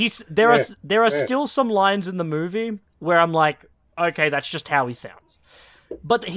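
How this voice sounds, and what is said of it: Usual voice. Nothing is said of it.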